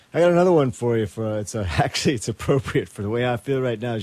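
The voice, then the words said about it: Tired, slightly out of breath. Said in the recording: “I'm a little tired. I'm a little out of breath from dancing around up here”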